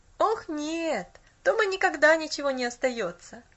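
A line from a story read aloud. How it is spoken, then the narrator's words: Boy laughing. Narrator (Russian): засмеялся мальчик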